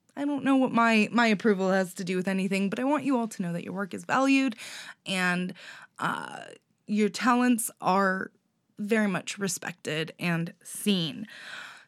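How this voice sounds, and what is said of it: Congested, scratchy-throated voice. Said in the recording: “my voice is probably a little intolerable today. I'm a little congested... my throat's been a little scratchy, and my nose a little”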